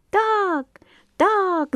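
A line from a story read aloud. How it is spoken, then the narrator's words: Crowd shouting. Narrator (Russian): закричали все и птицы, и рыбы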